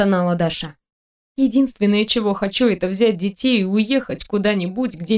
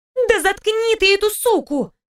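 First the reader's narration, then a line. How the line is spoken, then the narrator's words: Exclaimed. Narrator (Russian): воскликнула Анфиса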